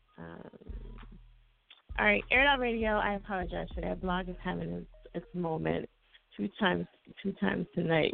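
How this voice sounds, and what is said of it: Worn-out, strained voice. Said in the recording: “my voice is like, ugh on E right now ... My voice cannot take it”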